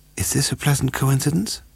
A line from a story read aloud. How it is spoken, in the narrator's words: Tracy Leonard whispered